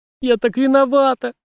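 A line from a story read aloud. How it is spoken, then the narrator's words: Girl holding back sobs. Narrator (Russian): с трудом подавив рыдание, произнесла девочка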